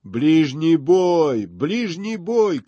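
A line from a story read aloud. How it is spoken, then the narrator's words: Shrill shouts from above. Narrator (Russian): кричали сверху пронзительные голоса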